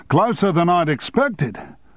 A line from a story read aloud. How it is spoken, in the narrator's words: shouted Townsend